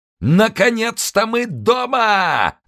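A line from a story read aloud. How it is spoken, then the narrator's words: Yelling. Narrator (Russian): заорал босс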